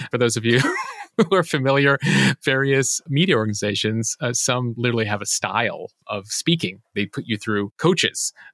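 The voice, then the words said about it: Quiet, low-pitched news-anchor delivery. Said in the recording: “if it sounds like I'm an NPR anchor right now ... I'm trying to keep her there ... you mean talking low, right? ... Talking low and passionate”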